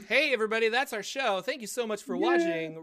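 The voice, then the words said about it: Announcer voice. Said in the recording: “that's my my announcer voice.”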